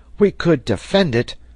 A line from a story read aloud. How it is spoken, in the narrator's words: cried Herbert